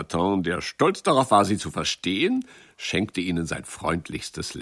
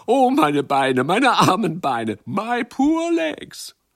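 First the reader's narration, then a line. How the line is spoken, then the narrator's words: Laughing calls. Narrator (German): Sie lachten und riefen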